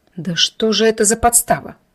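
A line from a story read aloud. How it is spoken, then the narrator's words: Disgusted words through teeth. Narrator (Russian): сквозь зубы процедила, с отвращением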